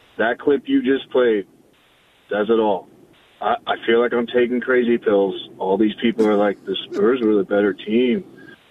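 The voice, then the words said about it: Hoarse, strained, nearly lost voice. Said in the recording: “I lost my voice screaming last night”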